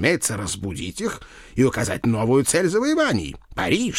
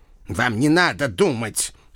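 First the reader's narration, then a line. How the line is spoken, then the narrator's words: Stern reminder. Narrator (Russian): строго напомнил доктор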